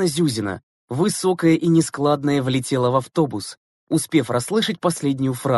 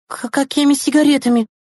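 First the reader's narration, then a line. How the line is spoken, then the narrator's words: Startled hiccup, babbling. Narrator (Russian): Икнув от неожиданности, пролепетала Громова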